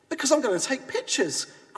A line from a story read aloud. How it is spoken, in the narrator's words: cried the photographer